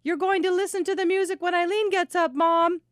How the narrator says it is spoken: holler up from the kitchen in her high monotone voice

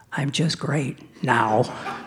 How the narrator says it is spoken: she whispered

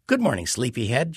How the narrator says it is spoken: she says

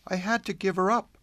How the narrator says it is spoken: she said wistfully

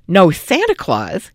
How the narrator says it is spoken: she snorted

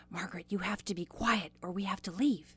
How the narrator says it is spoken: my mother whispered in her ear

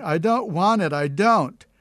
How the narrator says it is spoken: went on uttering screams

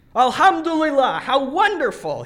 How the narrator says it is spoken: shouted

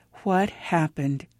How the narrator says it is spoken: asked in an almost whisper

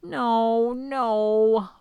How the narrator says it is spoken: whimpered the dragon

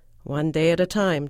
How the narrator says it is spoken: Don had said

